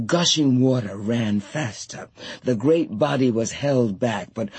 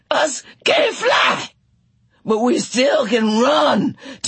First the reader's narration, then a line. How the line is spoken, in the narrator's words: Tea Cake shouted